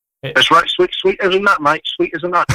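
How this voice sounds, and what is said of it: Put-on accent, pretty good. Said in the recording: “perfect that accent ... He's actually pretty good.”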